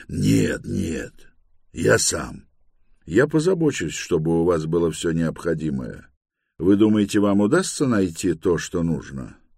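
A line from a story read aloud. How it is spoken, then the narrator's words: Quiet but confident. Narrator (Russian): Эблинг Мисс тихо, но уверенно ответил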